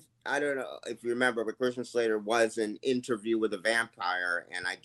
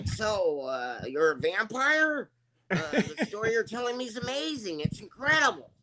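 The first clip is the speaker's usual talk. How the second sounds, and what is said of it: Christian Slater impression. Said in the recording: “I did a Christian Slater impression. ... I did Christian Slater interviewing a vampire.”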